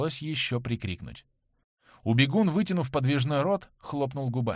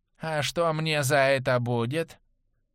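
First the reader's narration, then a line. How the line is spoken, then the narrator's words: Drawling nasal voice. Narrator (Russian): Голос у него был тягучий и гнусавый, как при насморке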